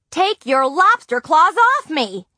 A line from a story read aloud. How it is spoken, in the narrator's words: Nancy yelled